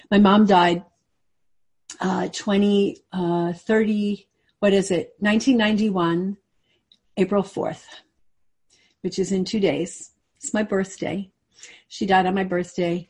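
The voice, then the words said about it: Emotional voice. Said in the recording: “I'm getting a little emotional here.”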